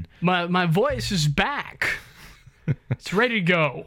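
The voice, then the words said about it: Deep radio DJ voice. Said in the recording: “the golden pipes are back ... the radio voice is back ... Is that your radio voice? ... It is ... I hate those motherfuckers that sound like that.”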